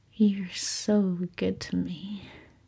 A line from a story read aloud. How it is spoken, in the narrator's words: Aziraphale murmured